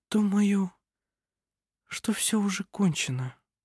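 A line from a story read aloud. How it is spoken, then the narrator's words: Barely audible whisper. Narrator (Russian): еле слышно прошептала она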